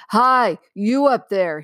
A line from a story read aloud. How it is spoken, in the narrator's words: he roared